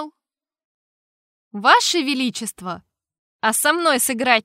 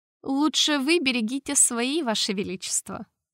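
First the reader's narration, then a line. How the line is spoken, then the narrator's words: Smirking grunt. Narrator (Russian): хмыкнул я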